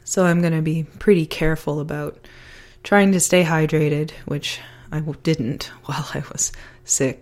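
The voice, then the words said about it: Hoarse, nearly lost voice. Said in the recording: “you can probably still hear it in my voice. I almost lost my voice again.”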